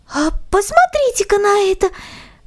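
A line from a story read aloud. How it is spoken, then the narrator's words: Girl's joyful exclamation. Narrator (Russian): радостно воскликнула девочка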